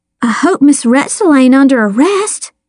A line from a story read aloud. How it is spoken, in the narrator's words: gasped